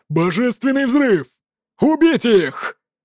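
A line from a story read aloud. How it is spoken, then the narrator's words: Sudden shout. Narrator (Russian): Ин Тяньцзун внезапно закричал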